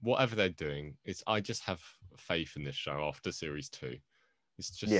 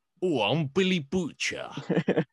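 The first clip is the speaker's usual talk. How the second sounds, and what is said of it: Billy Butcher impression, put-on accent. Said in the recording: “It's hard to do an impression of Billy Butcher when we're trying not to swear on this podcast ... It's hard to do an accent of Billy Butcher unless you have, like, all of your confidence ... I can do a good one”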